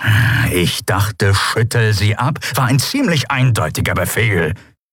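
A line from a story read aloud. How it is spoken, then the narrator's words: Growling. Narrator (German): knurrte Charsu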